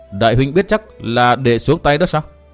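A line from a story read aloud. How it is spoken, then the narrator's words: Harsh gritted voice. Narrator (Vietnamese): Từ Mã Minh gằn giọng nói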